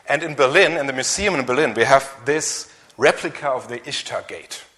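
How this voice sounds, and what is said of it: German accent in English. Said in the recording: “my strange accent and my weak English that I'm from Germany”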